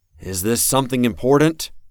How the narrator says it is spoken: asked, raising my voice

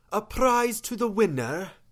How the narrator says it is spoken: She asked, in that strange accent of hers

